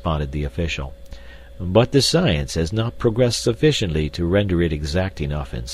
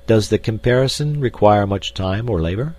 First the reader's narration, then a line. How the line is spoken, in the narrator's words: asked D'Arnot